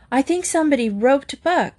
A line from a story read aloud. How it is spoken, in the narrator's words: Dale gasped, trying to clean her face of the sand